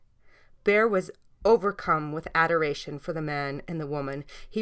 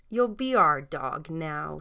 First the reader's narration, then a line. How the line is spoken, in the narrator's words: said the woman